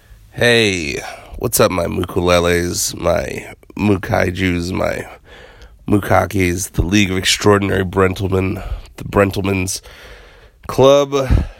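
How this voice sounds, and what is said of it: Sick-sounding voice. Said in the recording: “I sound a little weird. ... I am sick.”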